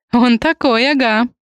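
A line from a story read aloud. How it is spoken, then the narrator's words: Female laughing. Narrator (Russian): рассмеялась Ри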